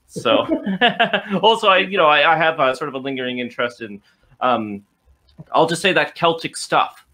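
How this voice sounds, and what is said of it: Prince Edward Island Canadian accent. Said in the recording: “People may have picked up on my accent. I grew up on Prince Edward Island”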